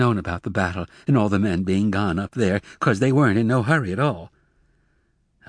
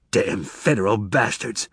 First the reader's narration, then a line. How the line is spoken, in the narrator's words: Tobias exploded angrily